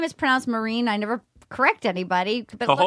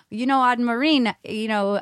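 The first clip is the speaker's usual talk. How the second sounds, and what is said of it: Put-on Rhode Island accent. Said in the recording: “That's my Rhode Island accent.”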